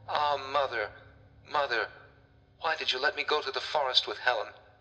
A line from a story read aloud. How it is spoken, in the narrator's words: she exclaimed